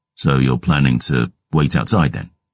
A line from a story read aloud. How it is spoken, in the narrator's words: I growled